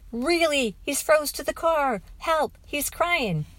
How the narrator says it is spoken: I screamed

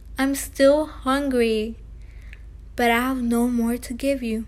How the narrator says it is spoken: he yawned deeply and wailed

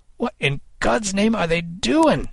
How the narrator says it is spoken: Kid cried

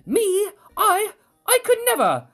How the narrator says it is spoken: sputter

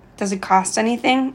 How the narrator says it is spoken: I asked

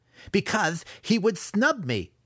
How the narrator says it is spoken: Massage yelled

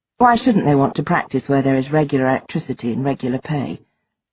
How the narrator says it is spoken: Mark asked, his tone flat

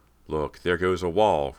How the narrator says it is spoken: Rob cried

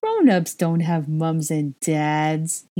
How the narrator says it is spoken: he giggled

